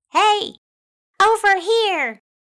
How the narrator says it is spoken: yelled

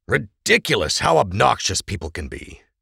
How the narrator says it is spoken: he grumbled

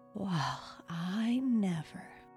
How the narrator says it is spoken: Grandpa sighed in deep contentment

